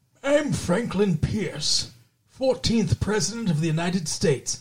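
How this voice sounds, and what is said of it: Imitates another person's voice. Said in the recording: “my best impersonation ... He sounded just like that.”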